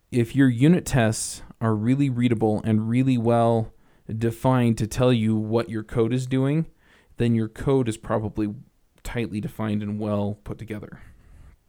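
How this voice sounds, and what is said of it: Congested voice with weird breathing. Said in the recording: “I have a little bit of a cold, so if you hear some weird breathing issues”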